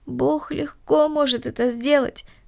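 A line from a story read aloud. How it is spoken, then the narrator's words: Sighed. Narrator (Russian): вздохнула Корнелли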